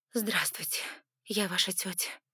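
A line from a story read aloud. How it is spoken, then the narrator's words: Breathed out. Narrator (Russian): выдохнула я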